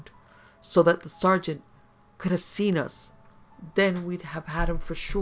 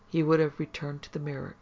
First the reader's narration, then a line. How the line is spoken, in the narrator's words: Yvette said sadly